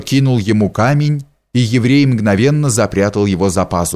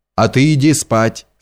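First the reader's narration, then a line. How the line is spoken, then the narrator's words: Plain. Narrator (Russian): сказал он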